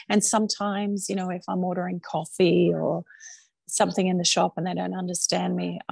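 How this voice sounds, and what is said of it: Mild Australian accent. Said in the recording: “I'm proud to be Australian ... It's probably not as broad as it used to be”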